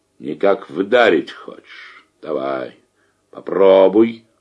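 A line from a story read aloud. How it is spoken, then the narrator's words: Quiet, menacing. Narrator (Russian): угрожающе и тихо проговорил он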